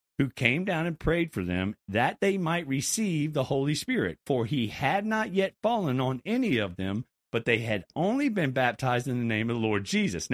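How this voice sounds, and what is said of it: Country accent. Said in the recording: “that sounded really country right there”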